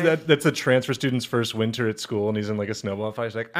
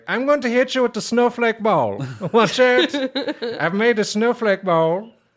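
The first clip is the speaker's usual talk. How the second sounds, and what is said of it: Vague unplaceable foreign accent. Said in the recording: “That's just ... all-purpose, not from here accent.”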